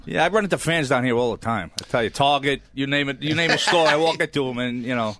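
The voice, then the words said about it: Bronx New York accent. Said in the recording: “I was born and raised in the Bronx. And ... accent is making me homesick”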